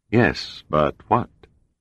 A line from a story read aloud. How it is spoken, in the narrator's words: Pribilof asked dryly